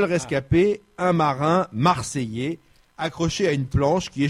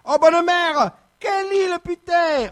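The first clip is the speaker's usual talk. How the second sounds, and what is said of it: Shouted Marseille accent. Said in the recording (French): “en criant avec l'accent ... une Marseillaise”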